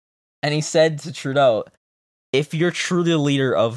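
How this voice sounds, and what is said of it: Usual voice. Nothing is said of it.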